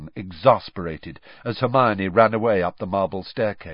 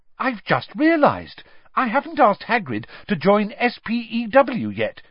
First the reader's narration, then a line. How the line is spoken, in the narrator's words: said brightly